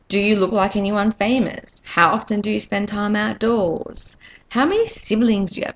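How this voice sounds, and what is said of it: Australian accent. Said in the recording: “as you can probably tell by my accent, I'm Australian.”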